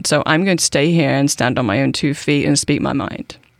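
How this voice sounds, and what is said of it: British accent. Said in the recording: “I'm British... I've been here for 21 years. I can't shake the accent.”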